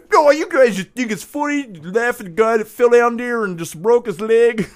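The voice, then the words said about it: Put-on Chicago accent. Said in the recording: “that's where my Chicago accent comes from”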